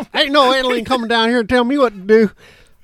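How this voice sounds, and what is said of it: Put-on Southern accent. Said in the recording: “I don't know why I did a Southern accent.”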